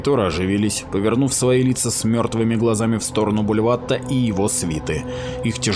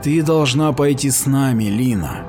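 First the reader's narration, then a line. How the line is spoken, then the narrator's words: Sighing. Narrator (Russian): вздохнул Тринард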